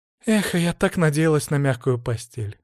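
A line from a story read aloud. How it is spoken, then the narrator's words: Sighing. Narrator (Russian): вздохнула Злата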